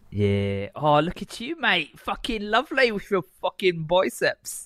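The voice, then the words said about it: Put-on English accent. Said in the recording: “your stupid English accent, and now you're doing it again ... Stop the voice.”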